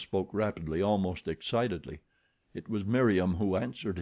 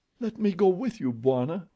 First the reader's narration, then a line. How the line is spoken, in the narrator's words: cried Miriam